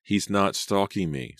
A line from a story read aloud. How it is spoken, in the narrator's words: Selena sighed